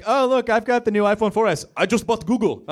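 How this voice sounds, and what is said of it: Put-on accent impersonation. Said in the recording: “I didn't mean to do that accent. ... it's a good impersonation”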